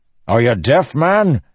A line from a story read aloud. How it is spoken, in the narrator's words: Dalinar snapped